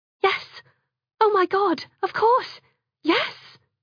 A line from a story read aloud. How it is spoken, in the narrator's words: She'd cried